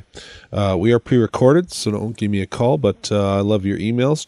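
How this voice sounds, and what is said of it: Sick, slightly odd-sounding voice. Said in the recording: “I'm sick, in case you hadn't noticed. That's why I sound a little weird today.”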